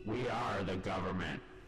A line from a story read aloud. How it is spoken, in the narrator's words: said another